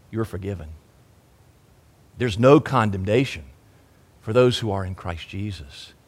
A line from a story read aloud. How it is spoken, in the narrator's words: he whispers in return